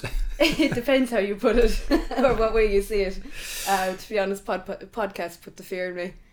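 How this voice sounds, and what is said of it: Strong Waterford Irish accent. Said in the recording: “My big dirty Waterford accent coming out there.”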